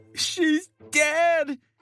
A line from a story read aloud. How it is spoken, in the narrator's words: cried